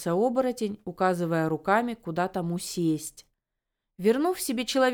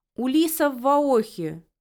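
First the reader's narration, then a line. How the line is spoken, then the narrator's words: Shouted. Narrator (Russian): крикнул Де Севанс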